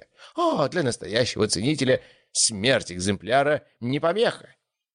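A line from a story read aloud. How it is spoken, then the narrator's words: Exclaiming. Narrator (Russian): воскликнул аукционер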